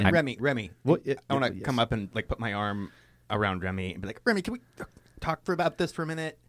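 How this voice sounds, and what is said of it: Usual voice. Nothing is said of it.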